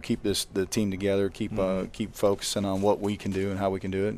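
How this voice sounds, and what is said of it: Disappointed, downcast voice. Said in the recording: “disappointed, obviously, you can hear it in my voice”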